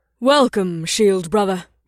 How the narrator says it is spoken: Ekname said in her rich voice

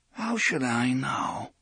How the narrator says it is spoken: Eddie croaked

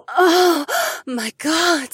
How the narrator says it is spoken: The orange-haired woman moaned

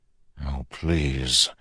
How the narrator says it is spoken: he felt himself mutter in a half-conscious prayer

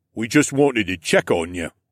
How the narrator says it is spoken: Otso rumbled

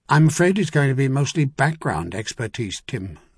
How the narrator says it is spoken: Salavan said dryly

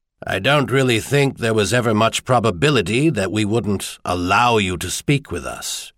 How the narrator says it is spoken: Anvil Rock said dryly

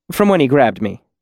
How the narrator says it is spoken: he said quickly

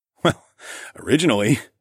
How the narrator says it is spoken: I chuckled

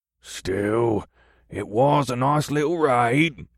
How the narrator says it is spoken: the third voice rumbled

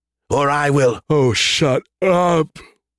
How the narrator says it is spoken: Scarandum said with a yawn

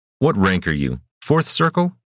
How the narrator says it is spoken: Rashan snapped, interrupting her practiced dismissal

